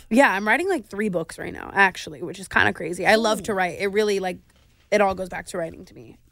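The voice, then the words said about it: Nasal, congested voice. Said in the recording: “I'm so f***ing nasally and gross right now.”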